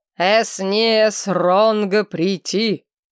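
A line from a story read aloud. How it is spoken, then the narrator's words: Loud bark, scrawny man. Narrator (Russian): рявкнул на всю аудиторию невысокий щуплый степняк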